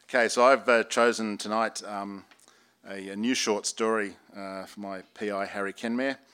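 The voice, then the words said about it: Accent that may be hard to follow. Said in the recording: “my accent, which I appreciate might be a little bit difficult on the ear”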